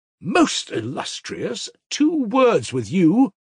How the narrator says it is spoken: cried Grushenka

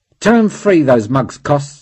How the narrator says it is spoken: said bitterly

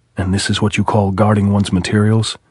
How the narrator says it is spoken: he said

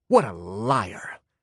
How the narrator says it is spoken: hissed the athlete

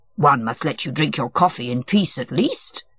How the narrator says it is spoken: said Matvey, in the affectionately gruff tone with which it was impossible to be angry

